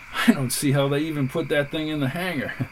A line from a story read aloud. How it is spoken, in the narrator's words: laughed McGee